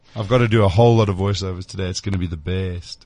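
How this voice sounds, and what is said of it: Hoarse, rough voice. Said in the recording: “I'm quite hoarse today ... you sound like you've been through shit ... My never-ending chest cold seems to be better, but my voice just doesn't want to ... I just sound bad”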